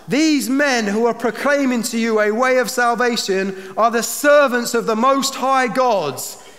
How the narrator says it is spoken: she cried out

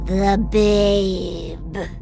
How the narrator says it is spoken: she growls, and my bones reverberate

